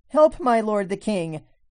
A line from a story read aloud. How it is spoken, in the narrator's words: a woman called out to him, saying